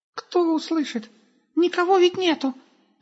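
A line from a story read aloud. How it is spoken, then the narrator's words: Squeaky voice. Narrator (Russian): пропищал Густав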